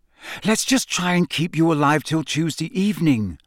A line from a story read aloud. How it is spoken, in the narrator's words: she said desperately